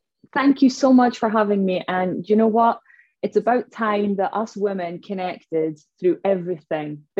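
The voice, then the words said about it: Noticeable non-local accent. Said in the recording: “I do love your accent. I love it. It's beautiful.”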